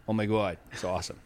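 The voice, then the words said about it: Put-on Boston accent. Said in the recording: “If you want the Boston accent, I can do it for you. ... It's hard not to swear when you do the Boston accent”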